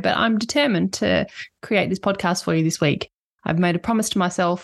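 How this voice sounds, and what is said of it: Nasal voice from a cold. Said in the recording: “I've had a bit of a scratchy throat and cold symptoms. So I apologize if I sound a bit nasally”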